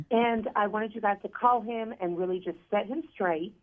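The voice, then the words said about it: Noticeable cute regional accent. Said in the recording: “I love your accent. Hello. It's very cute.”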